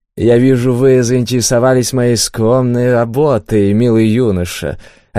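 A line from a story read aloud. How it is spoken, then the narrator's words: Desperate drawl. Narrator (Russian): отчаянно гасюра протянул художник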